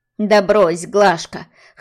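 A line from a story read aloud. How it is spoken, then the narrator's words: Snorting. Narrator (Russian): хмыкнула Лидия Николаевна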